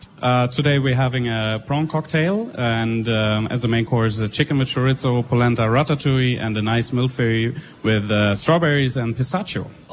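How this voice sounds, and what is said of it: German accent in English. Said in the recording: “I like the accent. ... oh, you're from France. ... No, I'm from Germany.”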